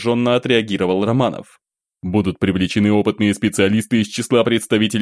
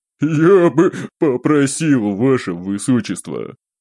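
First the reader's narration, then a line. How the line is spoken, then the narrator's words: Barely suppressing laughter. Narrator (Russian): едва сдерживаясь от хохота, начал демон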